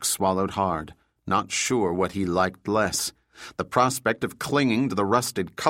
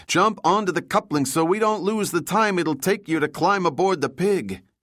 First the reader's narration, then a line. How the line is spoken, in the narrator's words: Juan shouted into the radio